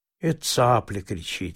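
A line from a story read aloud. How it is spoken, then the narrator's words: Calm objection. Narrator (Russian): спокойно возразил Павел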